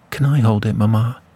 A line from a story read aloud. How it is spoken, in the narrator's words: she begged